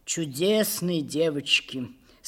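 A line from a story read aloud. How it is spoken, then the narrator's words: Sighing. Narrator (Russian): сказал он, вздохнув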